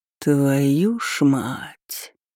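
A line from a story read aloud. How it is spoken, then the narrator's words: Drawn-out drawl. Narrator (Russian): протянул Джастин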